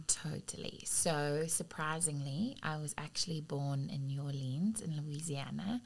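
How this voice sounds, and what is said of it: Foreign, non-American English accent. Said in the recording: “I noticed that you have an accent ... Definitely not a New Orleans accent ... my mom, she's South African”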